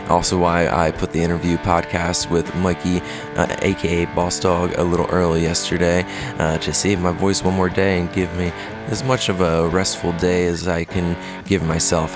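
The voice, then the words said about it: Slightly hoarse voice. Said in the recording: “Sorry for the bit of a hoarse voice... sound a little funny this morning”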